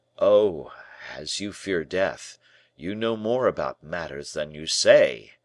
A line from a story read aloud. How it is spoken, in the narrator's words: he cried